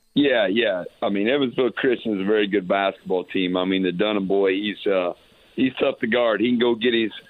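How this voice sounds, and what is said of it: Hoarse, worn-out voice. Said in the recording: “As you can tell, my voice is gone on trying to get guys where they needed to be.”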